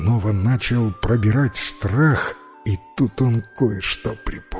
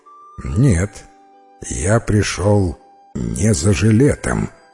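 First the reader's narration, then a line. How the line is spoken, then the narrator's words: Plain. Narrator (Russian): ответил незнакомец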